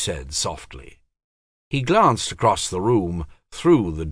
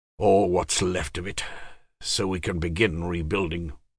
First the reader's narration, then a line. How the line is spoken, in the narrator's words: Bitterly, he said